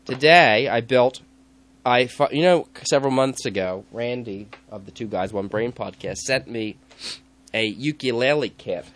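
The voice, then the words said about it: Stuffy, congested voice. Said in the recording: “But I have a cold”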